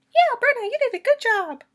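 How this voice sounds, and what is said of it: Bad high-pitched Mickey Mouse-like voice. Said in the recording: “she sounds like Mickey Mouse for some reason. Not even a good Mickey Mouse. Just a bad, high-pitched, bad impression.”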